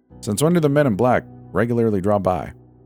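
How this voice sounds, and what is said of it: Sharp Boston accent. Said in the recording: “sharp Boston accent”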